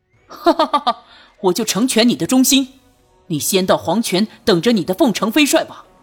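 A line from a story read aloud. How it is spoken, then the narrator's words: Loud laughter. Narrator (Chinese): 大笑道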